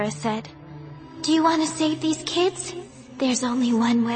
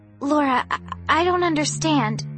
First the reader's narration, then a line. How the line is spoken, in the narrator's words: I stammered